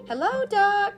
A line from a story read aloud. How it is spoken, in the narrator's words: shouted Jack Rabbit as loudly as he could